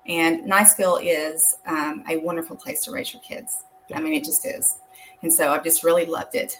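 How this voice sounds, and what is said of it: Slight North Georgia Southern accent. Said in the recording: “I grew up in North Georgia. You might just have a little bit of an accent when I say that.”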